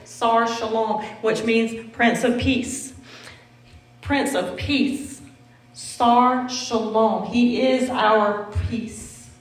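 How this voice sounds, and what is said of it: Southern American accent. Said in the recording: “I might be saying it wrong, but that's my southern accent.”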